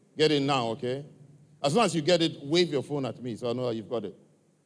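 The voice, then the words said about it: African-accented English. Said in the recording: “my accent, my African accent”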